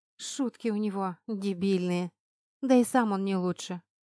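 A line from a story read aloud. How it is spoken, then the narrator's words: Sighing. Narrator (Russian): вздохнула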